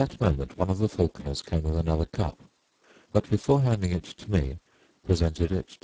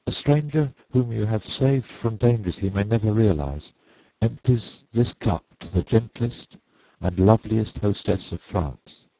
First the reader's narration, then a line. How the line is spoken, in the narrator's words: I faltered